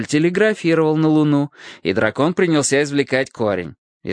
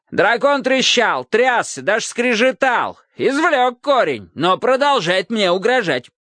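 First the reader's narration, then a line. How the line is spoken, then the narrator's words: King shouting from doorway. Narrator (Russian): крикнул король еще с порога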